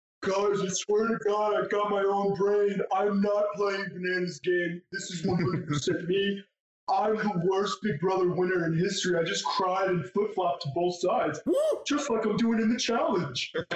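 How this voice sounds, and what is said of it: Imitates another person's voice. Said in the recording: “I actually could do his accent, but I'm good with accents. ... I did Josh pretty good this season.”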